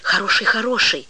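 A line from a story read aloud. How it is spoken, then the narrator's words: Girl's convinced whisper. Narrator (Russian): убежденно зашептала девочка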